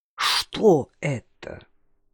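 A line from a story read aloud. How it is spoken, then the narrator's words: Low voice. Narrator (Russian): спросила Варвара Васильевна низким голосом, который всегда появлялся у нее в особые минуты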